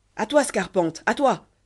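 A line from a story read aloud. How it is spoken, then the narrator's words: Shouted. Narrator (French): cria-t-il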